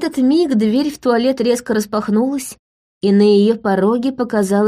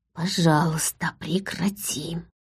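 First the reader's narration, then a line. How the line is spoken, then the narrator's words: Silent whisper in thought. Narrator (Russian): мысленно прошептала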